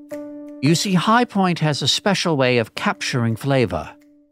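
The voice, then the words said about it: Old northeastern American accent. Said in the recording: “this peculiar accent ... It was a real accent. It was a really dominant sound in the northeastern part of America.”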